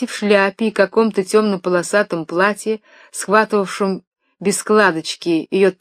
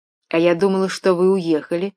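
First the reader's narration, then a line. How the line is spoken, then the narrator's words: Plain. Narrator (Russian): сказала она ему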